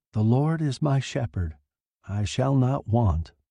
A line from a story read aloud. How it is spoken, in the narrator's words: Mercedes said softly